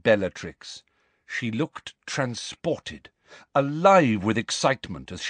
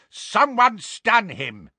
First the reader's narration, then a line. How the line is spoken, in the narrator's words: roared Neville